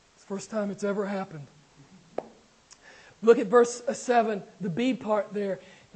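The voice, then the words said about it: Strained, hoarse voice. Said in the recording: “I think I'm losing my voice.”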